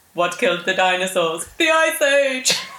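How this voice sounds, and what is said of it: Bad Arnold Schwarzenegger impression. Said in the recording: “favourite Arnold Schwarzenegger line ... That was such a bad impression.”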